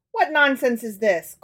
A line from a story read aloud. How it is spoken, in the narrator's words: cried his father impatiently